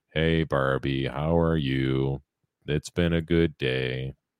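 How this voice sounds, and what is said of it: Flat, boring monotone delivery. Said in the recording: “I do it in like my own monotone way... Dad, you're boring”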